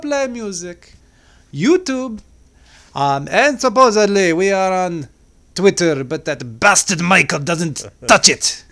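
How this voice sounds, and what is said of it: Angry French accent, fading out. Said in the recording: “you sound like an angry Frenchman ... it faded in the end”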